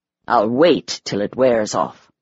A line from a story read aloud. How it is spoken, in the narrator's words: he growled